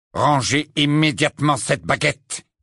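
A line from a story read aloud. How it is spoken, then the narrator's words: Curt, sharp. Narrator (French): dit-il sèchement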